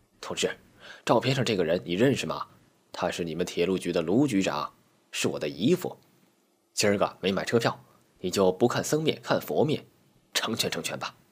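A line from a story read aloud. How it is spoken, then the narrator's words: Whispered in ear. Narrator (Chinese): 小伙子凑到小吴耳边低声说道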